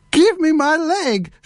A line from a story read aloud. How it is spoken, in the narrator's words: she screamed